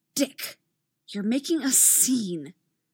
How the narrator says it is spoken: a new voice hisses from the side

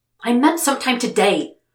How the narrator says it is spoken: Will snapped

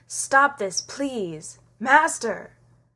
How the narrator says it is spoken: rasps with his old voice and weak lungs

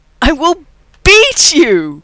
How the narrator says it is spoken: Rodney howls

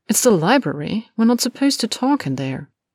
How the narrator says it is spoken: Malfoy answered haughtily

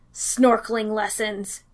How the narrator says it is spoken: Danny spat

